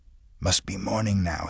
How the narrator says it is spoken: he mumbled it, almost in a hoarse whisper

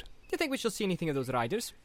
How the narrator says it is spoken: asked Pippin cheerfully

